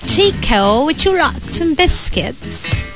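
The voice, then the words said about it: Put-on British accent. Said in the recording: “pag-British accent ko ... Lady Camden stan na ako”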